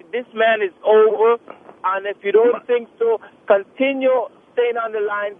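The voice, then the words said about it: Very thick accent. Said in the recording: “You've got a very thick accent. ... He has a thick accent. ... My accent is very thick ... Yours sounds thicker.”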